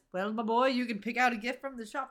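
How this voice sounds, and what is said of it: Put-on Scottish accent. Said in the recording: “That's my Scottish accent.”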